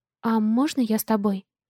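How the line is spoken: Timid question. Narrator (Russian): Робко спрашиваю

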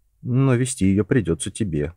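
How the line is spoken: Glum, dejected. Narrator (Russian): уныло проговорил Джон

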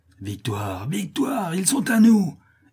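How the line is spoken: Shouted. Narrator (French): hurle Andrés

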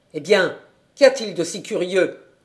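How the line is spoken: Impatient grumbling. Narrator (French): grommela-t-il avec impatience

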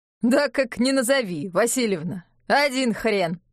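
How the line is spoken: Laughing. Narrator (Russian): хохотнул Яков

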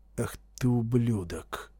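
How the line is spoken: Muttered in sudden realization. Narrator (Russian): пробормотал Шарп, поняв вдруг истинную причину странной кровожадности кавалериста

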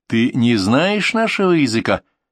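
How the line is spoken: Question in Afrikaans. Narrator (Russian): Ян спросил на африканос

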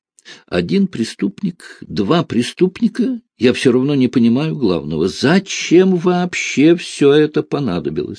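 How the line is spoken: Plain. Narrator (Russian): сказала

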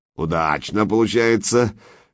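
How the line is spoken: Rumbling, rolling laugh. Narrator (Russian): Берсерк снова хохотнул, как камни в бочке перекатились

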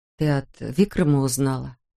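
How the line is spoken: Timid question. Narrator (Russian): робко спросила Тесса

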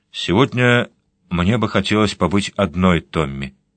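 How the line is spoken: Calm. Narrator (Russian): Она спокойно сказала

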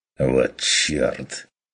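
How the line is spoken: Muttered in sudden silence. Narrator (Russian): пробормотал ван Ален во внезапной тишине

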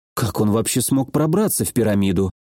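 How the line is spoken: Muttered. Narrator (Russian): пробормотала Мирослава

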